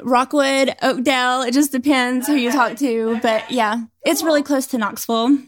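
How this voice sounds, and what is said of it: Mild East Tennessee Southern accent. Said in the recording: “I'm getting an accent... I'm from East Tennessee... it didn't seem like super country”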